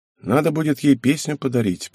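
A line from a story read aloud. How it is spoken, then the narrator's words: Mutter. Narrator (Russian): пробормотал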